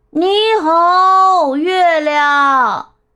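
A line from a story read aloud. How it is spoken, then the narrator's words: Shouting. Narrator (Chinese): 他大叫着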